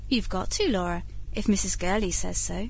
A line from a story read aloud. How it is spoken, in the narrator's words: expostulated the kindly governess